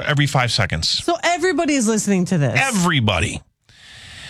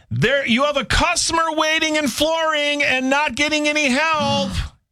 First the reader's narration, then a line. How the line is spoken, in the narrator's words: this guy was yelling at the top of his lungs